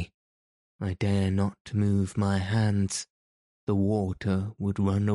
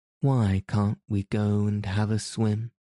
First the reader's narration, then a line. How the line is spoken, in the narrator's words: said the princess